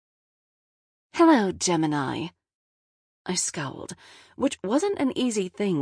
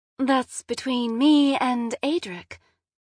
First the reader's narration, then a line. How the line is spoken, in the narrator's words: she said, way too sweetly